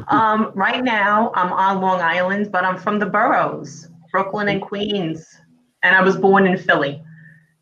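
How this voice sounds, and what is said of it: New York accent. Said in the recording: “where in New York, New Jersey is ... from? ... my accent ... a mishmash of them all ... to me, you just sound like a New Yorker”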